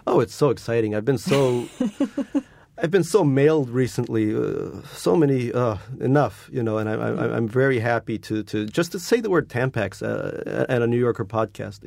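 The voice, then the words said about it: Slight Malagasy accent. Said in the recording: “Little Malagasy accent.”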